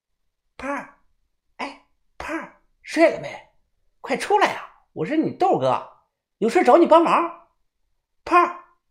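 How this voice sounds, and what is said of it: Quiet, hushed calling. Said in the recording (Chinese): “小声的叫道”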